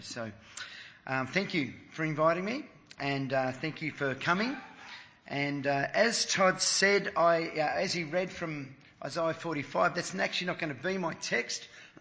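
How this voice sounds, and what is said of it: Weak, strained voice. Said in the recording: “my voice is a bit weak... had to talk over all the noise”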